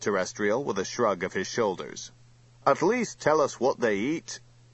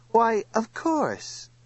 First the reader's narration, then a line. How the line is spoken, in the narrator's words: he said soothingly